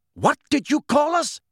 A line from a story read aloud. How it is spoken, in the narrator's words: shouted a wild-looking black centaur, Bane